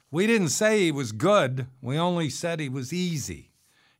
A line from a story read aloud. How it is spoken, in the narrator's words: The redhead shouted